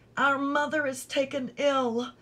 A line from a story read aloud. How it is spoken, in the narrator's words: cried